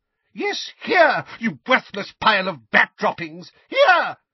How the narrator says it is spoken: shrieked Mrs

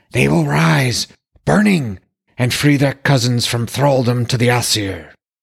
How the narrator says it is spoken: added, in a voice like the wind's shriek

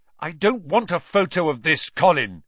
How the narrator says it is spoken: he said loudly

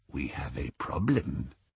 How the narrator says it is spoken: said the goblin softly

